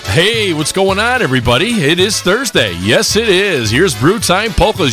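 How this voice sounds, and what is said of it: Announcer-style radio voice. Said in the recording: “That's my radio voice. I don't use it that often”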